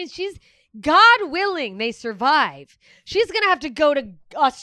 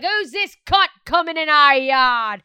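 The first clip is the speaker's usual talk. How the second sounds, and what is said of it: Bad Australian accent impression. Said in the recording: “That's a bad impression. ... That is really bad.”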